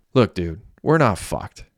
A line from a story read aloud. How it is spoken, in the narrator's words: Messi said in a calming tone